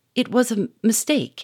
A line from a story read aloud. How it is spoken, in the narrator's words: he stammered